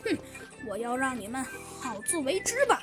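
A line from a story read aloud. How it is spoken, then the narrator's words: Smiling. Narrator (Chinese): 他笑了笑，说道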